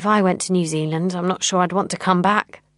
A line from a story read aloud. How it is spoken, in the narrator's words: says Diane